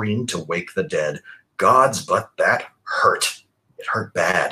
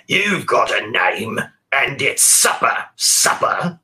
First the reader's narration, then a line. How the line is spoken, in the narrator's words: Great Mother snarled around her pitted gums